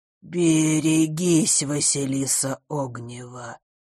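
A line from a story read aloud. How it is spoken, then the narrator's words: Creaky voice. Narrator (Russian): проскрипел его голос, похожий на звук, открываемый в старом доме форточки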